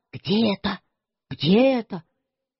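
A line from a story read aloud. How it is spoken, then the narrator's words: Faint whisper. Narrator (Russian): совсем шепотом сказал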